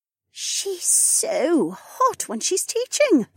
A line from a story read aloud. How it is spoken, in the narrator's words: Becca whispered